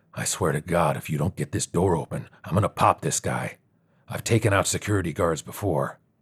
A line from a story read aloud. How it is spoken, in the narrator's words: He muttered